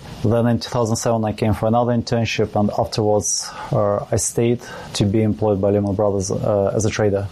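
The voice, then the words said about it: Non-native English, Russian accent. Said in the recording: “doesn't sound like you're a native of England from your accent ... Originally from Russia”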